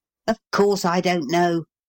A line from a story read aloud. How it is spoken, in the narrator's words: growled Paul